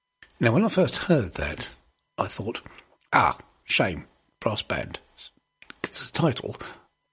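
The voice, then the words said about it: Kent accent, not West Country. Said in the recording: “you might have heard my accent. I suspect it's an accent that says, don't I ... giving away the fact that I'm not from the West Country ... from the Far East. Kent”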